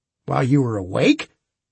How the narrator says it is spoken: Harbinger asked sharply

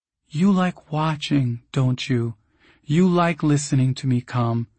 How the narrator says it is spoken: She will whisper

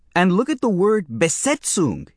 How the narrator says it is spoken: he said angrily

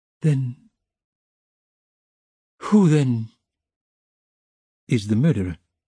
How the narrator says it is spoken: He asked in a breathless voice, unable to restrain himself

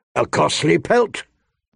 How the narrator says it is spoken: Robert grumbled

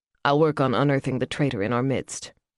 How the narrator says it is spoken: Yvonne said flatly

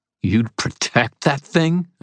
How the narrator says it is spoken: I snarled

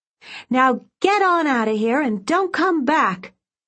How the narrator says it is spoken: shouted at them

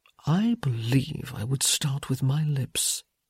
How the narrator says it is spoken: he murmured

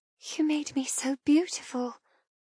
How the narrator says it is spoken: I whisper

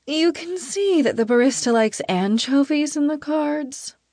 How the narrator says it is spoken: I ask sleepily

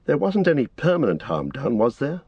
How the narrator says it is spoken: asked Frodo anxiously

